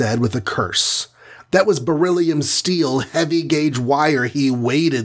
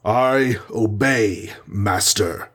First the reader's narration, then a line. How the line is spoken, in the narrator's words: growled the Titan, caught in his spell